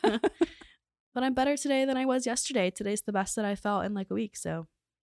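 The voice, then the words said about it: Hoarse, laryngitis-affected voice. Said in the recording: “I just have like laryngitis right now. It's like an unknown laryngitis”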